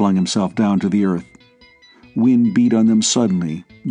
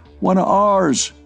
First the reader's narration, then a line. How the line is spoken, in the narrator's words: shouted Coffey in Wallace's ear